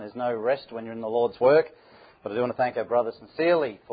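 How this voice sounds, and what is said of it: Northern Irish accent. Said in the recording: “I'm glad that he explained the accent... coming from Northern Ireland, and then you open the mouth... those folk in Portavogie have a queer brogue”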